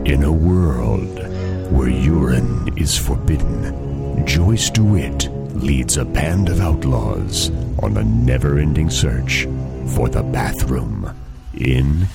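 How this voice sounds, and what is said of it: Movie trailer announcer voice. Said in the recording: “movie trailer voice guy”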